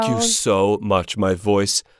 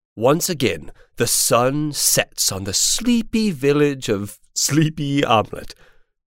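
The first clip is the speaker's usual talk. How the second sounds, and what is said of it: Storybook narrator voice. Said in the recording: “This narrator voice is not my speaking voice”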